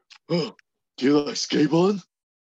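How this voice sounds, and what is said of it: Poor imitation of another person's voice. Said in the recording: “that's the worst impression I've ever heard.”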